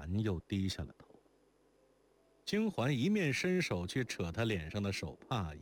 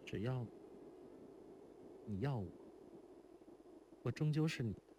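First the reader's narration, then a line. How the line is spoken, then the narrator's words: Shy, hesitant, muffled through handkerchief. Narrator (Chinese): 如莲红着脸，自己迟疑了半晌，声音从手帕里透出来道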